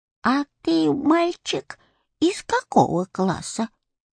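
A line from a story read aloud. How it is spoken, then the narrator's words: Old woman's voice, asking. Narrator (Russian): старушечьим голосом спросила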